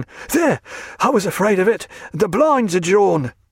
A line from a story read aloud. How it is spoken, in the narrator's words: he said, panting